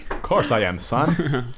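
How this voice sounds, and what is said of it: Old-fashioned 1950s dad voice. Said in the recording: “It's the 50s all of a sudden with my dad voice.”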